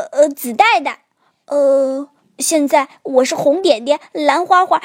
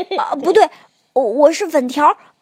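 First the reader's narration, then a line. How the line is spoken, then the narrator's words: Stammering. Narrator (Chinese): 变色龙结结巴巴地说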